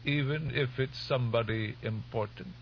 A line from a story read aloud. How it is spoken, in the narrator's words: the old woman asked in her wavering voice